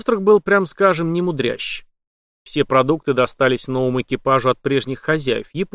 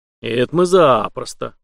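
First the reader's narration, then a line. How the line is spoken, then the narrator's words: Glad noisy group clamor. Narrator (Russian): обрадованно загалдели члены команды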